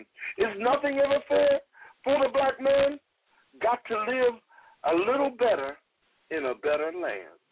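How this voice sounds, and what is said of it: British-sounding accent while reciting. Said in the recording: “You still have that British accent to your voice, too. ... You had that British thing going on.”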